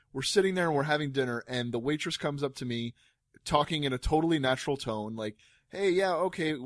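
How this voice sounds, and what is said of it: Usual voice. Nothing is said of it.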